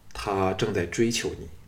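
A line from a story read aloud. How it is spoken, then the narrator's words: Sighing. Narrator (Chinese): 项少龙叹了一口气说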